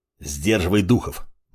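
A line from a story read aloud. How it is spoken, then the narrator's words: Displeased grunt. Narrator (Russian): недовольно буркнул Плевок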